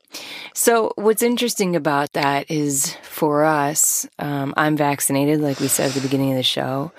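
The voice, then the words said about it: Slightly raspy voice. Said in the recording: “this little bit of a raspy voice”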